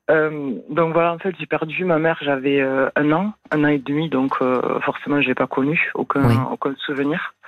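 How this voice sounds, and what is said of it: Southern French accent. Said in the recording (French): “un joli accent du Sud. ... Ah ouais, du Sud, exactement.”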